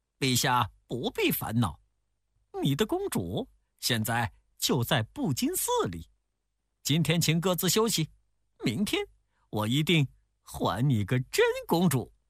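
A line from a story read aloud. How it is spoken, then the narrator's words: Smiling. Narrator (Chinese): 悟空笑着说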